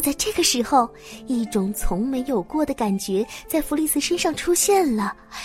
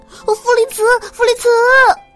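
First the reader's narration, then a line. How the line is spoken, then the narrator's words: Nervous shout. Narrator (Chinese): 费特紧张的大喊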